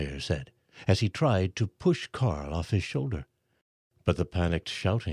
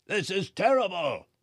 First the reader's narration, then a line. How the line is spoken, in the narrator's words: yelled